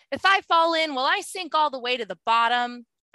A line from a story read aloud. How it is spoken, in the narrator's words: I yelled back